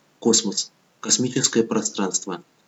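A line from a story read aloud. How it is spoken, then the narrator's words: Secretive whisper. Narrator (Russian): шепотом будто делился грязной тайной и ответил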